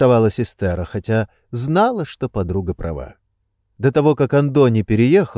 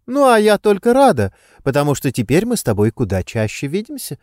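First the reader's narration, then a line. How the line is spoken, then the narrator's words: Laughing reply. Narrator (Russian): смеясь кивнула Алайя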